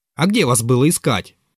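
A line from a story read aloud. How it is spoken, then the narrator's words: Rude interjection. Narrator (Russian): грубо ввязался Ферфичкин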